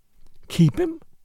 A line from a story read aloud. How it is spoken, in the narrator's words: she gasped